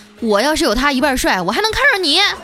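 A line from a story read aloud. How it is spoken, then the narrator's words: Loud roar. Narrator (Chinese): 那男的也大声地吼道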